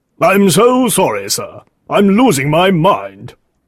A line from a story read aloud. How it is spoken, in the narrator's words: Green cried